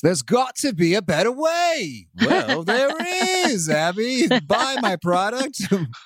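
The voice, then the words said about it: Slow British infomercial pitchman voice. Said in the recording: “We do it in a British accent, in a slow infomercial-y voice.”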